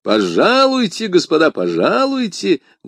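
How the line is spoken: Loud. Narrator (Russian): громко произнес Д'Артаньян

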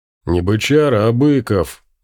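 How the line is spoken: Hurt deep bass voice. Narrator (Russian): обидчиво пробасил здоровяк

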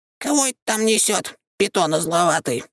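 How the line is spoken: Displeased squeak, yawning. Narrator (Russian): Недовольно пропищал он и, судя по всему, зевнул

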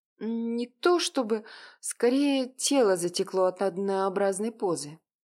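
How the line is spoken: Plain. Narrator (Russian): ответила она

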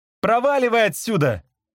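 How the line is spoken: Shouting. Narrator (Russian): закричал мне Ник

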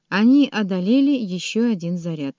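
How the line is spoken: Plain. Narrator (Russian): сказала она Рорку

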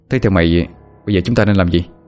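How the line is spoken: Sighing, low-voiced question. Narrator (Vietnamese): thở dài, trầm giọng mà hỏi

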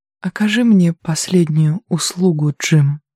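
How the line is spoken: Composed after a sigh. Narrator (Russian): Мирен вздохнула, затем взяла себя в руки и сказала

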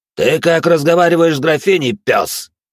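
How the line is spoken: Elf growling. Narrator (Russian): прорычал эльф

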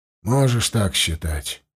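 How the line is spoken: Gruff mutter. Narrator (Russian): буркнул кузнец

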